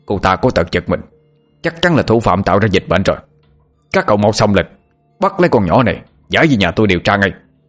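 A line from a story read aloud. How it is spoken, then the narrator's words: Shouting. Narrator (Vietnamese): Lão Ngạn mồm thì hét lên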